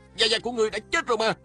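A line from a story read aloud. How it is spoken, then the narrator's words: Shouting. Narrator (Vietnamese): Lê Cường la lên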